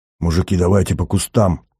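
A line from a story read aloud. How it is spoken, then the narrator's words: Hoarse strained. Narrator (Russian): с хрипом выдавил Шубин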